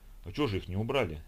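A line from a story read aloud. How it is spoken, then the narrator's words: Gloomy question. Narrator (Russian): мрачно спросил Николай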